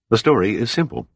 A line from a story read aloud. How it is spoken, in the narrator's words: Pitt said evenly